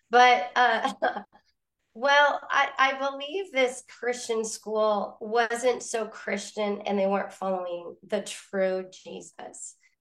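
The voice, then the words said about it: Cracky voice from a cold. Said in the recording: “I'm recovering from a cold, so my voice is a little cracky. It like cracks like, I don't know, 12-year-old boy or something.”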